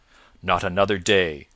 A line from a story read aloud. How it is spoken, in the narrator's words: said the prior sternly